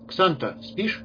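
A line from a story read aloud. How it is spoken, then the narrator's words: Blacksmith's sudden quiet question. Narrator (Russian): вдруг тихо спросил кузнец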